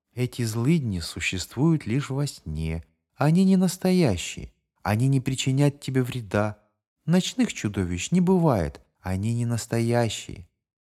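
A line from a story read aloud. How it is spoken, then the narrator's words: Mother's tender whisper. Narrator (Russian): Мать нежно шептала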